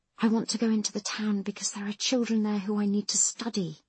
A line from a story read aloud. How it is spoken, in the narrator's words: he whispers